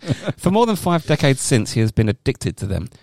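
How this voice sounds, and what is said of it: Usual voice. Nothing is said of it.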